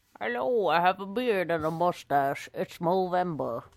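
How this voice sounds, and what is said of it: Old prospector character voice. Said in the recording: “Why am I talking like an old prospector?”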